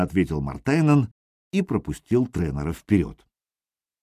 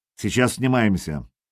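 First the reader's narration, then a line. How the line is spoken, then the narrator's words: Sharp. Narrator (Russian): Тренер сказал резко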